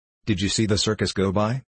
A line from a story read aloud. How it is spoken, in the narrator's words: she said hastily